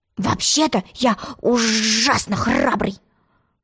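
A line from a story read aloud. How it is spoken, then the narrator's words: Whisper. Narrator (Russian): шепнул ей Тец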